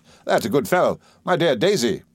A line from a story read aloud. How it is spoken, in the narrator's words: said Steerforth, laughing